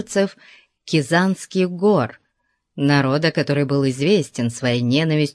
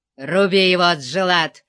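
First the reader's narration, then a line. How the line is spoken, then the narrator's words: Snarling. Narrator (Russian): зарычал красный тюрбан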